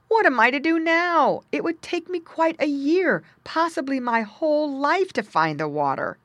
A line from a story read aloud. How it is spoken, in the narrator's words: he cried